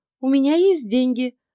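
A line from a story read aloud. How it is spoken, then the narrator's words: Joyful. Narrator (Russian): радостно произнесла Инга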